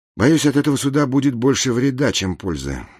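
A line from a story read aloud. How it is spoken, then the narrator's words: Sigh. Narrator (Russian): вздохнул Гензи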